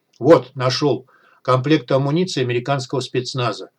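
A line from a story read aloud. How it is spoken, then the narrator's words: Joyful announcement. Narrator (Russian): радостно сообщил Шип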